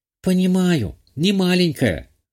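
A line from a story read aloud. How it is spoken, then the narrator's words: Girl's sigh. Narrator (Russian): вздохнула девочка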